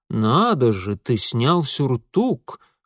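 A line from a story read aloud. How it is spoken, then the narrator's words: Sarcastic drawl. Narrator (Russian): саркастически протянул отец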